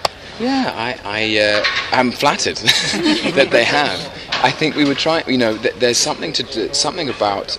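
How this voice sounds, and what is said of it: English accent. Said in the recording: “I don't even know what my accent is, you know? Like, obviously, it sounds very English.”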